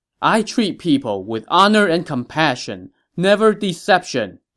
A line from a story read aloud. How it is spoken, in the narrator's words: he shouted to Ma Chao